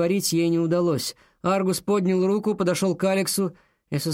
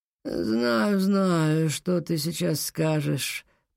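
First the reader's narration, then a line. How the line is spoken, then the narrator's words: Deliberately listless tone. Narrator (Russian): произнес он нарочито вялым тоном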